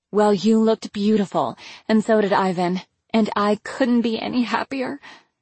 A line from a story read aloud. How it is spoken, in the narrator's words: choked